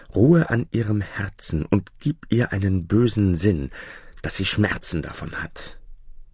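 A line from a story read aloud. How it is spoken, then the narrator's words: Whispered. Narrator (German): Der dritten Kröte flüsterte sie zu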